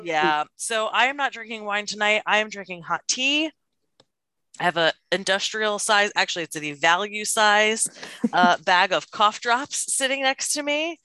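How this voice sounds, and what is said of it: Scratchy, sick voice. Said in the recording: “my voice is going to be super scratchy probably for the next couple of episodes ... my COVID voice”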